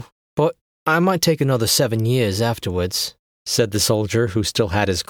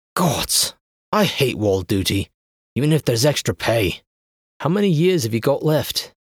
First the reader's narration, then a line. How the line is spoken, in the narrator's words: he sighed